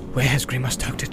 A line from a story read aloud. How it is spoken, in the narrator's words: He muttered under his breath